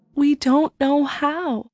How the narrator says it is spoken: Dane replied sadly

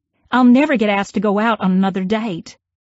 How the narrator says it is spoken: I yelled

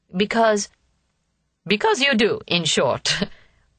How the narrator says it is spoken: laughed Mademoiselle

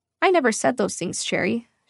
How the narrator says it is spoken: she replied calmly

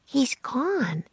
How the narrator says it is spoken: Annie said in a quiet voice

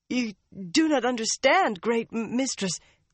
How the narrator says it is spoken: Leandrin said frantically

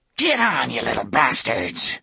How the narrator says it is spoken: he snarled

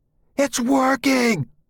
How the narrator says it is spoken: I screamed at Uncle Clayt

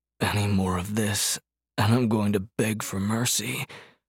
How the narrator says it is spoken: Hart rasped

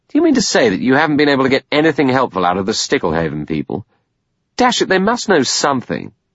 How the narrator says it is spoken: He said irritably

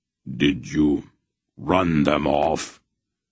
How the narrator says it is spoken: His voice was harsh, even, brutal

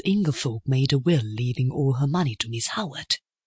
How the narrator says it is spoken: I asked in a low voice with some curiosity

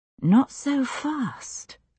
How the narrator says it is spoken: I whispered

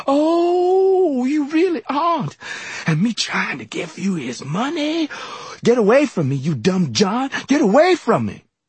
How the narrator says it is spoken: suddenly she screamed

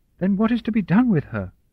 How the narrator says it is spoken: Charlotte said desperately

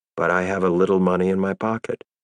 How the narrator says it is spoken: I said calmly

